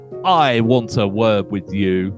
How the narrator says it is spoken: called out

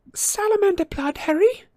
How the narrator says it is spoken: Hermione moaned

